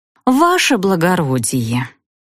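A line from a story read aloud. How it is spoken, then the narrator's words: Capricious girlish drawl. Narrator (Russian): протянула я с интонациями капризной девчушки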